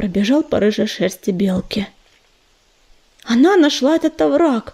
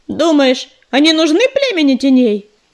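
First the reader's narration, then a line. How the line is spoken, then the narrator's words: Shout from crowd. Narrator (Russian): крикнул из толпы Белохвост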